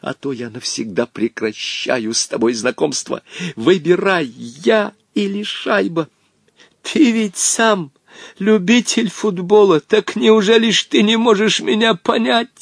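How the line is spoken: Pleading old man. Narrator (Russian): взмолился старик

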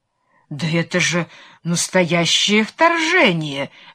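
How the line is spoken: Stunned exclamation. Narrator (Russian): воскликнул ошеломленный герцог

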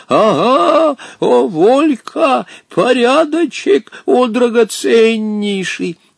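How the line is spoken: Wild triumphant laughter. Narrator (Russian): порывался спеть и хохотал при этом с таким диким торжеством

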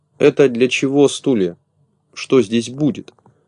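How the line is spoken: Plain question. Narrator (Russian): спросил Незнайка

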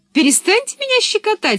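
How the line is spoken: Laughing. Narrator (Russian): смеялась Пеппи

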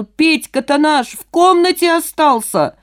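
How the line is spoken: Man shouting. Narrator (Russian): мужчина закричал

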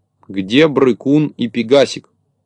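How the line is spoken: Stern question. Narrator (Russian): строго спросил

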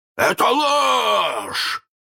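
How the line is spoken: Hoarse roar. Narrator (Russian): хрипко взревел Крюк

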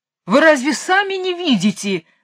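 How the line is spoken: King yelling. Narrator (Russian): завопил король

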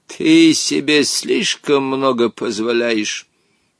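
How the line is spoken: Displeased grumbling. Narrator (Russian): недовольно пробурчал Хоттабыч

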